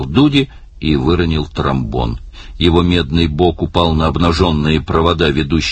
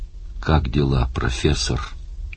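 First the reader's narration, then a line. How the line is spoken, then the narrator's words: Quiet question. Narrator (Russian): тихо спросил он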